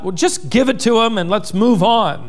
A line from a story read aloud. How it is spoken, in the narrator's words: A man yelled out